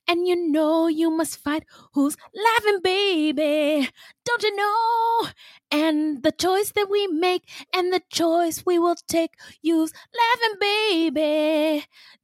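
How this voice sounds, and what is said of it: Sung imitation of another person's voice. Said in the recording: “that's my Michael Jackson impression.”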